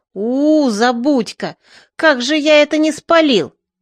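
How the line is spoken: Moaning. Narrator (Russian): Бобырь простонал

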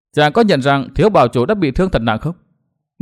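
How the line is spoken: Smiling. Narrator (Vietnamese): Đinh Linh quay lại mỉm cười

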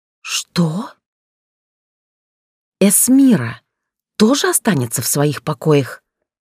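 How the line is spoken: Hissed in rising rage. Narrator (Russian): Прошипела, чувствуя, как внутри раскрывается алый цветок ярости

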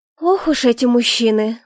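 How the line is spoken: Sigh. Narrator (Russian): вздохнула я

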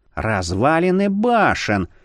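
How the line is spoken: Breathy ghostly exclamation. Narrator (Russian): выдохнул призрак

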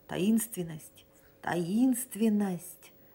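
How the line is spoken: Whispered twice. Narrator (Russian): прошептал 2 раза сряду

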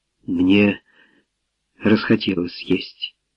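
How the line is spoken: Tearful mumble. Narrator (Russian): пробормотала Мэри, тщетно пытаясь сдержать предательские слезы

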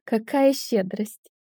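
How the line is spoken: Hateful laugh. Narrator (Russian): рассмеялась в ответ, чувствуя, как ненависть застилает глаза

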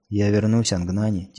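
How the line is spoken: Quiet. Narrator (Russian): тихо сказала

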